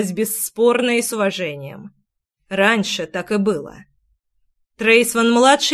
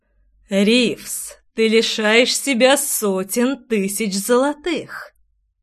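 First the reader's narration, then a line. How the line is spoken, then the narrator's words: Insinuating, silky dragon voice. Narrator (Russian): вкрадчиво произнес дракон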